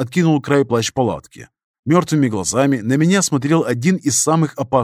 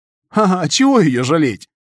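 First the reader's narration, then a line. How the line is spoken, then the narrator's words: Hoarse laughing stalker. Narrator (Russian): хрипло рассмеялся сталкер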